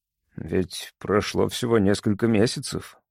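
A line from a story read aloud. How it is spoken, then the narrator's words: Awkward mumble. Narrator (Russian): пробормотал, не зная, что еще сказать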